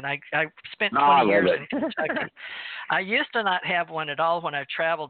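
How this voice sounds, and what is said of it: Southern American accent. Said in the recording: “I have my southern accent.”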